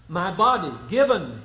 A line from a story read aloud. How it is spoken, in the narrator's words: he says